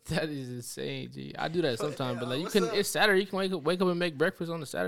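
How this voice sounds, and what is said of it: Usual voice. Nothing is said of it.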